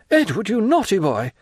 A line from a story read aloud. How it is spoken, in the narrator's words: exclaimed Madame de Villefort